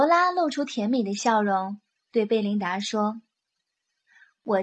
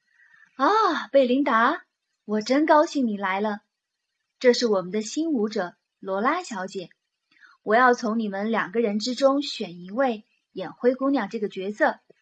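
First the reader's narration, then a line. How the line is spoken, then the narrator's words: Beaming, cheerful. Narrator (Chinese): 指挥大师笑容满面地说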